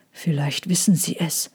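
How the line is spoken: Excited murmur. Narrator (German): raunte Trojan und wiffte beinahe vor Aufregung

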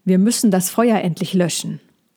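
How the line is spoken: Called out. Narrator (German): rief Molchi

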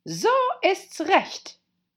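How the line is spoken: Queen calling out. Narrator (German): rief die Königin

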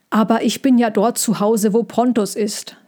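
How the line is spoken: Plain. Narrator (German): sagte

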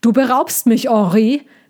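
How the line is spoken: Rumbling voice calling, chest-muffled. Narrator (German): rief er, und Tommy hörte seine Stimme brummen, weil er an seiner Brust hing

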